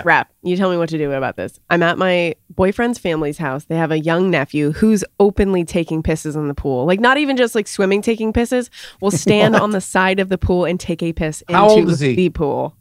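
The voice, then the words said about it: Quiet, lowered voice. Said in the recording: “I'm going to lower my voice because there's still people upstairs”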